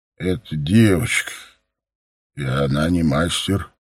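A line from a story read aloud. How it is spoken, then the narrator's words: Creaky voice. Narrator (Russian): проскрипел Кирихан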